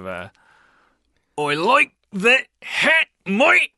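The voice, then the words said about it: Strained, tense attempted Australian accent. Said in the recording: “master the Australian accent ... That sounded like you were in so much pain ... tense ... Sounded like you were passing like a kidney stone.”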